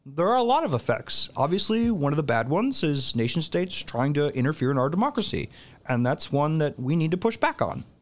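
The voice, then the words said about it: Imitates another person's voice, Kermit-like. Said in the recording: “That's the Zucks. That's the impression right now ... my impression of ... Is it a little too Kermit?”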